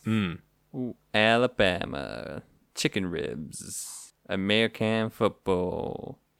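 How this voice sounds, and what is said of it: Put-on American Southern accent. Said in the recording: “That's my American accent. I do apologize.”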